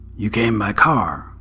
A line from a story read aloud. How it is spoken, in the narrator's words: A woman's voice, low and rasping